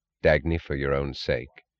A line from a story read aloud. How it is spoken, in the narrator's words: He said quietly